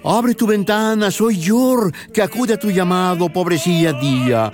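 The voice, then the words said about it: Puppet character voice. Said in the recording (Spanish): “hacer la voz del muñeco que personifica a Yor, hijo del sol”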